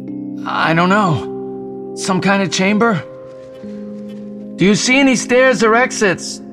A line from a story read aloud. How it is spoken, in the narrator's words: Jason yelled